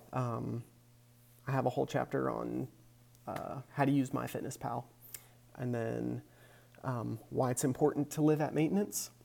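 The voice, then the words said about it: Unwell-sounding voice. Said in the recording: “the way my voice sounds. I hope I'm ... on the mend.”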